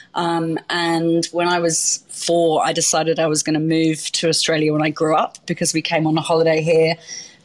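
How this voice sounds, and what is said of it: London English accent. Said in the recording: “you were born in London, uh, which we can tell by your gorgeous accent.”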